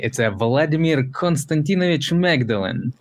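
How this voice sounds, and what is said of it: Thick Russian accent. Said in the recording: “a nice, thick Russian accent, the full one”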